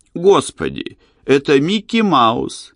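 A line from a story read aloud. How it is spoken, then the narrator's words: Child laughing loudly. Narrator (Russian): Малыш Эрни расхохотался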